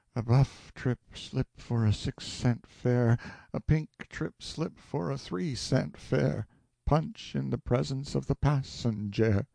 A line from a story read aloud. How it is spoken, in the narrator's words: sighed wearily and murmured